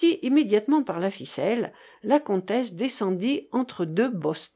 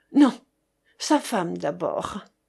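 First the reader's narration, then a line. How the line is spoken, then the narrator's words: Breathless whisper. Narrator (French): fit entendre Chéri Bibi dans un souffle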